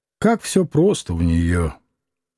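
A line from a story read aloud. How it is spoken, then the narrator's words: Muttering. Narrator (Russian): пробормотал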